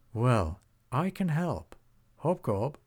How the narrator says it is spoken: said the dragon

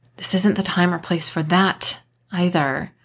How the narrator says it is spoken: I hissed, feeling exceptionally uncomfortable about the four sets of eyes watching us

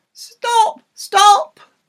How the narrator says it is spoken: she shouted

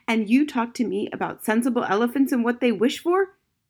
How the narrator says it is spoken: shouted the captain

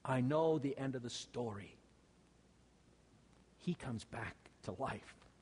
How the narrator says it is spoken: Elijah ... he whispered into her ear

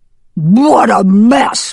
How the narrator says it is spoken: barked the dog

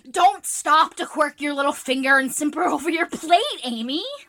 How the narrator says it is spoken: cried Jo, choking on her tea

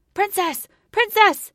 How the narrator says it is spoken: he shouted frantically

